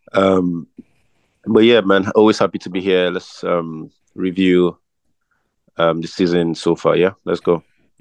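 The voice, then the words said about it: Rough, sick-sounding voice. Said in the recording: “my voice is a bit dodgy still ... I'm feeling a little sick”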